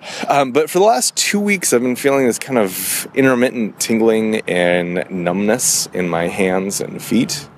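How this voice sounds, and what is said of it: Rough, sick-sounding voice. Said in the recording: “I sound terrible ... I have a cold, so I apologize for that and that coughing.”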